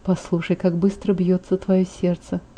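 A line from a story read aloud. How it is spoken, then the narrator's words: Whisper. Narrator (Russian): прошептал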